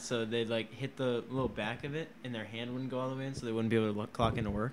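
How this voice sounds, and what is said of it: Tired, worn-out voice. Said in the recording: “I'm getting tired, dude. My voice is going. I've been talking for a long time.”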